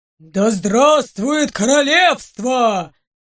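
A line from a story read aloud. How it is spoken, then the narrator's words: Deep-voiced roar. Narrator (Russian): Басом взревел кто-то из стражников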